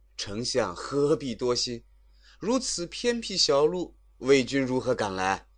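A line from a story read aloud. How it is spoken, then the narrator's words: Laughing. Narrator (Chinese): 马谡笑着说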